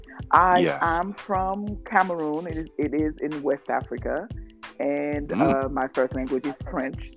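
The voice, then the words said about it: African French accent. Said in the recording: “So you hear an accent, that will be mine ... And you sound like you're Jamaican ... I am completely African with a French accent.”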